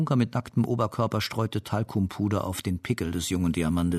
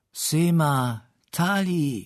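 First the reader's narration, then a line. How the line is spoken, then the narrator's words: Calling out. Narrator (German): rief sie mir zu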